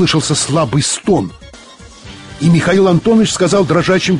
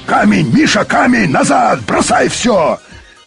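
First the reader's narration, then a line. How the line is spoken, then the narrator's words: Sudden shout. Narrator (Russian): Юрковский вдруг закричал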